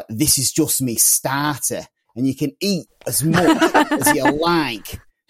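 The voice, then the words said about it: Slightly off imitated Scouse accent. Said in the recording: “that was a little bit off base for a Scouse accent there”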